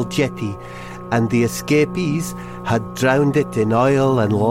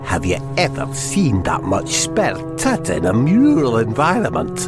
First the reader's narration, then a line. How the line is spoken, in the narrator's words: muttered Hamish McFidgety